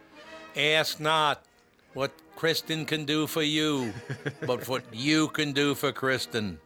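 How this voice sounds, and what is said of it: Bad John F. Kennedy impression. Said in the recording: “That was the worst impression of John F. Kennedy I've ever heard in my life. ... It was terrible. ... It was horrendous.”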